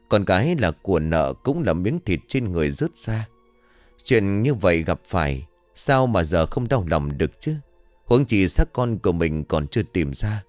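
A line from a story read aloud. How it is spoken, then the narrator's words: Old woman sighing. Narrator (Vietnamese): bà Tâm lại thở dài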